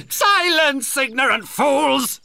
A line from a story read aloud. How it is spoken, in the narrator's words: shouted Blackheart